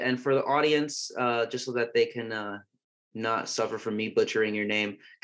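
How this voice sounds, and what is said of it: American English accent. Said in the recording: “my American accent”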